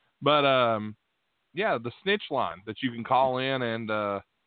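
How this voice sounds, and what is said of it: Usual voice. Nothing is said of it.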